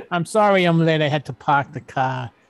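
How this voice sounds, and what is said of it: Weak attempt at Boston accent. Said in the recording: “You're trying so hard. ... Even when he tries to do a Boston accent, he can't do it, right?”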